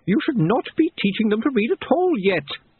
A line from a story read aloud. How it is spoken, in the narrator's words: she snapped